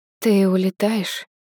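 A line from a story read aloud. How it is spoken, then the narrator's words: Hoarse question. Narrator (Russian): хрипло спрашиваю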